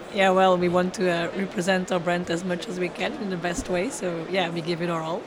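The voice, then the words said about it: Hoarse, strained voice. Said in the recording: “I've kind of lost my voice already ... already lost her voice.”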